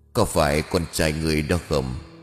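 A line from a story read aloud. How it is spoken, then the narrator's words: Deep cold gruff voice. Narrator (Vietnamese): giọng nói ồm ồm lạnh lùng của người nọ đó vang lên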